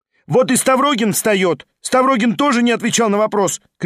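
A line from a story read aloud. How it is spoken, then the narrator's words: Female student shouting. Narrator (Russian): крикнула студентка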